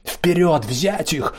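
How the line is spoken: Battle shout. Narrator (Russian): прокричал Мейтланд

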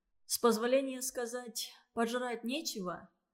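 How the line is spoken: Tired. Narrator (Russian): спросил он устало

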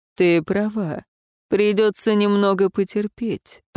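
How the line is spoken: Sighing. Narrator (Russian): вздохнул он

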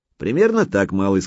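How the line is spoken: Plain. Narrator (Russian): сказал Федорович

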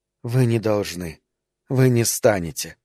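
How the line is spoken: Whispered. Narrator (Russian): снова заговорила она шепотом

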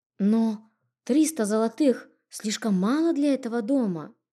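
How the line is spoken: Confused mumbling. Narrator (Russian): растерянно пробормотала я

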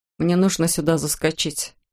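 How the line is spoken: Muttered. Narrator (Russian): пробормотал Эндрю

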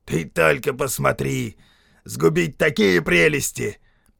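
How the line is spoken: Outraged roar. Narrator (Russian): Возмущенный бесстыдством чужака, Келладар взревел

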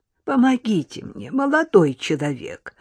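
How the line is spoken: Old woman's plaintive plea. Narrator (Russian): повторила старушка жалобным голосом

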